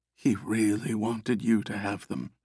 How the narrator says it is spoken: whispered

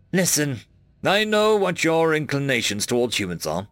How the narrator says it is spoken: Carlos grunted

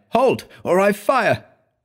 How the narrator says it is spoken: He cried

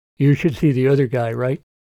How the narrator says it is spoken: Andy chuckled

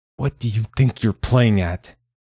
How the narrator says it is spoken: hissed

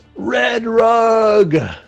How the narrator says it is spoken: the other little guy yells

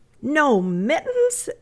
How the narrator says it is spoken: exclaimed Amy in dismay

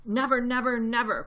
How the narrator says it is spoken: cried Bogus

